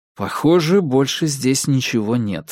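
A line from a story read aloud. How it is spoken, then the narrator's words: Plain. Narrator (Russian): сказал я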